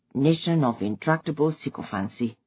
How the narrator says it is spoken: He no longer muttered

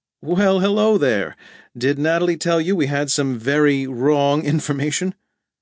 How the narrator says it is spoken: Byron laughed

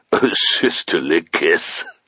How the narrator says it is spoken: chuckled Kerrigor

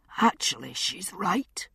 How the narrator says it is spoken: said a soft, rasping voice behind me

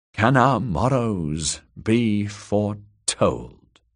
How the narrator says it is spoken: he repeated slowly

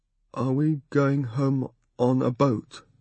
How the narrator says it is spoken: I sighed

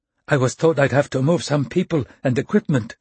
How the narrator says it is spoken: said, the words tumbling breathlessly from her mouth

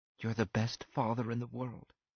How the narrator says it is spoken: she whispered

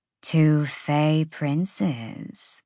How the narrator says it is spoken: the hind purred

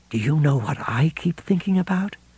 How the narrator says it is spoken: Lois's voice had dropped to a whisper

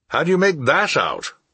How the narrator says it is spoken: I exclaimed

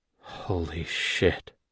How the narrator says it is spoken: I muttered

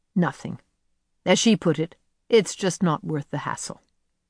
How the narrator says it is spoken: Karen said flatly

